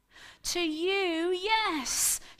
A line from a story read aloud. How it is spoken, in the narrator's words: exclaimed